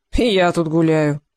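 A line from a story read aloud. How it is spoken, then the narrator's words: Snorting. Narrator (Russian): хмыкнул Невада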